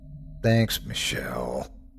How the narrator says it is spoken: I groaned

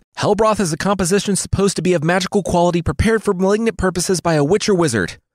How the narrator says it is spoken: the tutor shouted, finishing his lesson at all costs

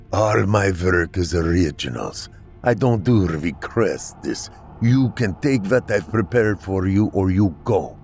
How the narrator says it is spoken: Kat would simply reply in a thick Russian accent

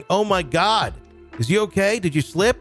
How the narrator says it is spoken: My new coworker came running to the back shouting

